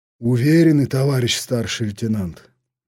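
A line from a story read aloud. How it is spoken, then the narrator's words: Heavy sigh, scout. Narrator (Russian): тяжело вздохнул разведчик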